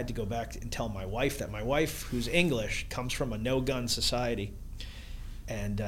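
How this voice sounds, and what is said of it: Usual voice. Nothing is said of it.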